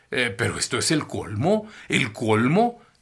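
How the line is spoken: Astonished exclamation. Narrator (Spanish): exclamó al verlos a todos flotando en torno a la mesa

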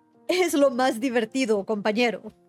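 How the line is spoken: Laughing. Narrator (Spanish): dijo riendo

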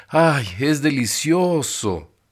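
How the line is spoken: Happy sigh. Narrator (Spanish): dijo Bárbara, suspirando de felicidad

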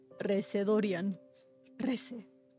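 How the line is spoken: Murmur. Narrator (Spanish): murmuró

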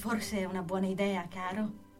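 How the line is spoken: Plain. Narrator (Italian): disse la mamma

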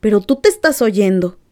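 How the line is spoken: Grandmother exclaiming. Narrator (Spanish): exclamó la abuela

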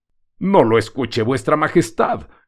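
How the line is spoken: Frightened shout. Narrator (Spanish): gritó el gitano, volviéndose cada vez más pálido que la cera

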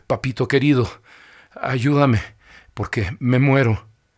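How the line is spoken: Breathless, broken voice. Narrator (Spanish): Nadó hasta que le dio el aliento, dijo con voz entrecortada

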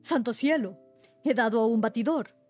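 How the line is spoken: Exclaimed. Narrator (Spanish): exclamó Sir Geoffrey

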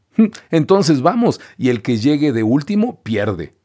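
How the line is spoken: Shout. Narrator (Spanish): gritó Pinocho

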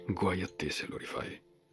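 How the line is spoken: Man's low voice in ear. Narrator (Italian): aggiunse l'uomo a bassa voce, dritto nel suo orecchio

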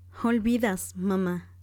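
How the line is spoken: Plain. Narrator (Spanish): dijo Elizabeth

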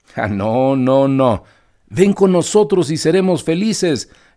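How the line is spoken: Several voices shouting inside. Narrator (Spanish): gritaron otras 4 voces adentro del carruaje

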